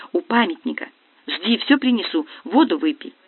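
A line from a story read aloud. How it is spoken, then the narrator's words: Whispered. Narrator (Russian): Сонечка шепнув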